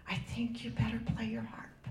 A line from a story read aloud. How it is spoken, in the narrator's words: Again, the aide whispered